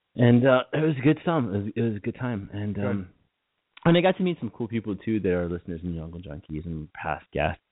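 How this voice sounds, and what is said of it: American accent. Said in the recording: “as only Yankees do, and I'm sure seemingly weird accent”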